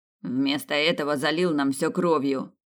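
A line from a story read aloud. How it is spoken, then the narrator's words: Muttered. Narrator (Russian): буркнул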